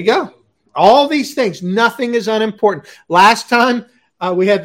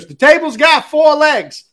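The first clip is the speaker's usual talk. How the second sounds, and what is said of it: Put-on New York accent. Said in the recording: “He didn't say it like that. I don't know why I gave him a New York accent.”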